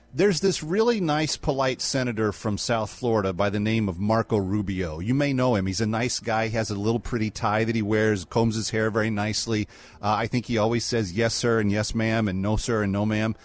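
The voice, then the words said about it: Flat deadpan delivery. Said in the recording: “I'm trying to be as deadpan as possible”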